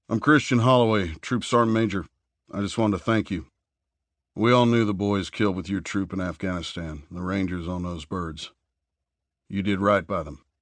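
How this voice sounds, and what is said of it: Man speaking with Southern US accent. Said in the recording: “the large bearded man began in an accent that betrayed a southern upbringing”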